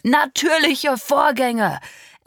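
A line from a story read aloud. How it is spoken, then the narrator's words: Father echoing angrily. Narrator (German): echote mein Vater wütend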